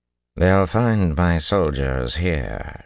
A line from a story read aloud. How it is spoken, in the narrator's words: she drawled